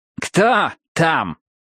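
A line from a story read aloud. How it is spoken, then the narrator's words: Calling out. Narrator (Russian): выкрикнул Стэмпер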